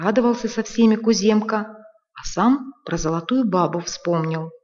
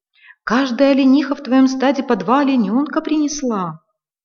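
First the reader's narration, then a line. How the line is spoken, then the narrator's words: Mother's joyful shout. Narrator (Russian): мать кричит радостно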